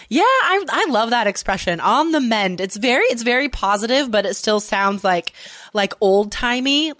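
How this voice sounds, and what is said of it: Nasal, congested voice. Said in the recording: “excuse my voice if I sound a little more nasally than I normally do”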